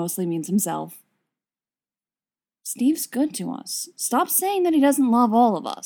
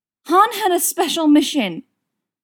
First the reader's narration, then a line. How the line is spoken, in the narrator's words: Leia yells back